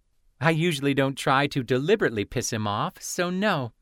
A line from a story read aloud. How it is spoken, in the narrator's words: Penzi giggled